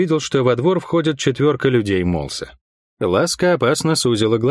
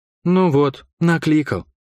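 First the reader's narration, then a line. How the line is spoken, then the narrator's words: Sighing. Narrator (Russian): вздохнула Лайон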